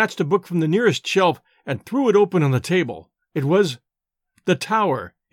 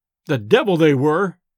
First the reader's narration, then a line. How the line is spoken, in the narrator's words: I exclaimed irascibly